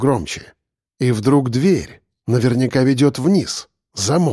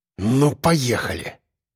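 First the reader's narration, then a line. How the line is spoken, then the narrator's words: Hissed through teeth. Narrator (Russian): Прошипел я сквозь зубы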